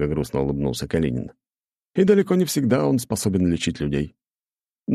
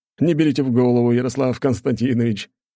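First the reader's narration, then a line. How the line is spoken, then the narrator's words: Light laughing. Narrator (Russian): легко рассмеялся граф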